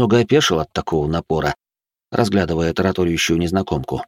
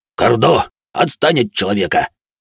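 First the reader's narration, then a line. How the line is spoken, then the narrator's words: Barked. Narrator (Russian): Рявкнул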